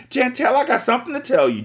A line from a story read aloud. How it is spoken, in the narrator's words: Tracy screamed